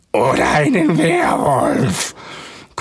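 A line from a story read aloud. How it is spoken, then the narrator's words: Triumphant growl. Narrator (German): knurrte Felix triumphierend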